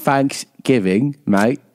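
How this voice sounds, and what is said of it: Put-on English accent. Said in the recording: “That was a perfect English accent.”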